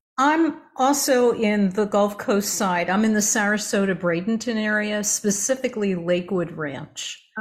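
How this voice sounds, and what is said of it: New Jersey / Philadelphia accent. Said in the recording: “It sounds a little bit like a New York accent to me. ... Well, close enough. Jersey and Philly.”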